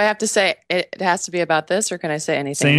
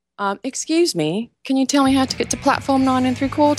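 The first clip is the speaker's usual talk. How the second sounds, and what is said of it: Put-on British accent. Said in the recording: “finish out this interview with your British accent”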